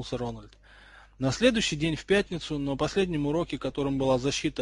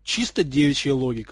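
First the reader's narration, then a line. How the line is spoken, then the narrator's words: Snorting. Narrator (Russian): хмыкнул Уизли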